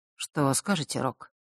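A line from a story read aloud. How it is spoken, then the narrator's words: Quiet. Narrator (Russian): тихо произнес Миракл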